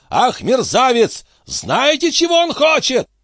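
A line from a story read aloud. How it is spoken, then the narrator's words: Shouting. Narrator (Russian): он закричал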